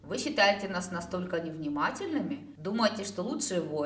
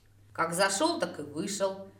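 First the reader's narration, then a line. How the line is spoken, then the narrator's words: Irritated reply. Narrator (Russian): раздраженно отозвалась я, зляясь, что Тор без предупреждения втянул меня в этот разговор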